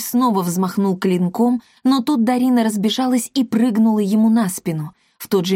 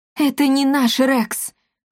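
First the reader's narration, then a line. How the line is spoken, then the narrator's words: Breathless gasp. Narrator (Russian): выдохнула Марта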